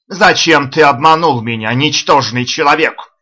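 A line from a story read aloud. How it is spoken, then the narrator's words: Shouting high priest. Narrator (Russian): закричал главный жрец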